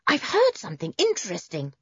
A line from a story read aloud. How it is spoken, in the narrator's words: he barked, an excited little bark